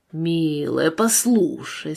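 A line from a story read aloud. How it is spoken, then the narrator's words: Conciliatory tone. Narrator (Russian): сказал он примирительным тоном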